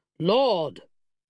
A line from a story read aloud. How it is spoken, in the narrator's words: he boomed